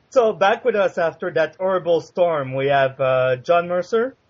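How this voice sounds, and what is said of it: Quebecois French-Canadian accent. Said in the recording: “his charming Quebecois accent”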